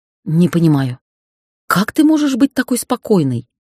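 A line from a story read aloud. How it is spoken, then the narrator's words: Exclamation. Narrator (Russian): воскликнула она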